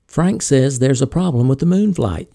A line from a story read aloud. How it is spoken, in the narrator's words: she said